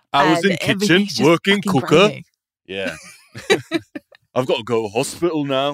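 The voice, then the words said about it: Put-on Yorkshire accent. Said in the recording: “everybody speaks with a Yorkshire accent, which is lovely ... but the Yorkshire accent”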